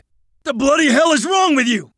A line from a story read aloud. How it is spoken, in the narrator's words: Nathaniel glared up at the hide and shouted